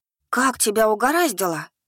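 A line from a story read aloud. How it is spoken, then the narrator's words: Astonished breathy exclamation. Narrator (Russian): Пораженно выдохнула Донская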